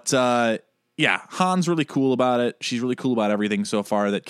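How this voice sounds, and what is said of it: Usual voice. Nothing is said of it.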